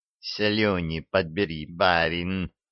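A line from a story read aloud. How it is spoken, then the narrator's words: Angry hiss. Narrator (Russian): сердито прошипела Дуняшка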